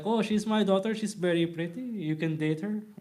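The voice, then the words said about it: Put-on Filipino accent. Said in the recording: “I started just going off with a Filipino accent”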